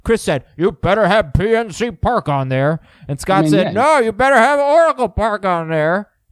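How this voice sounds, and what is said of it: Bad impression, old Muppet-guy voices. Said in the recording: “I do a great Scott and Chris. ... We sound like those old guys from the Muppets. ... that wasn't a half bad impression of us. Nope, it was all bad.”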